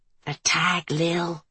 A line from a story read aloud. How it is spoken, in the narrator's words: Maddie whispered